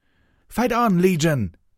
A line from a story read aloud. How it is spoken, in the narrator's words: cried out